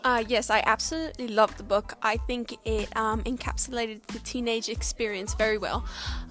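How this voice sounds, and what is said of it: African accent. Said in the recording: “sorry if you can't understand her accent. ... It's African.”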